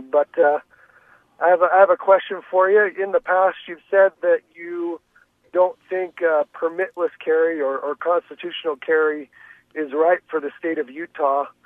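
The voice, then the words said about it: Rough, sick-sounding voice. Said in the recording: “forgive my voice. I'm overcoming a cold”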